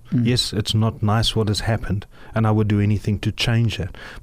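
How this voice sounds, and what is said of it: South African accent. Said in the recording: “your South African accent”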